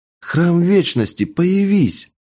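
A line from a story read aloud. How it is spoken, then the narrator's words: Exclaimed. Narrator (Russian): воскликнула она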